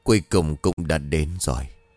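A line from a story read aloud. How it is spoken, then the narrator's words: Sigh. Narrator (Vietnamese): thầy thở dài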